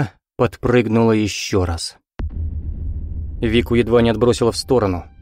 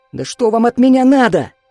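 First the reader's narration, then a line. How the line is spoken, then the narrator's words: Shout. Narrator (Russian): закричала она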